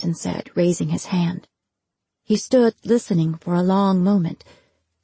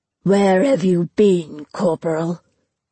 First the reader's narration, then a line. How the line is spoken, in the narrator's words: said in a low, raspy voice